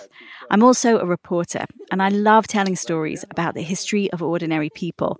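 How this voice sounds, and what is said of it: London English accent. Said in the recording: “I had to get used to your accent now since you're a Londoner.”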